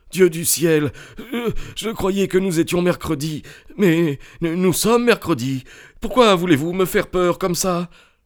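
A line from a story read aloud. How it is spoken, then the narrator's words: Sobbing shrilly, face in arms. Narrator (French): Il laissa tomber son visage sur ses bras et se mit à sangloter d'une façon aiguë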